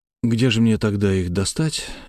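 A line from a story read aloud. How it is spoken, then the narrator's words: Sighing. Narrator (Russian): Я вздохнул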